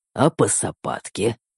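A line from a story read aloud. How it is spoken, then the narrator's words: Silky growl. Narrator (Russian): вкрадчиво прорычал я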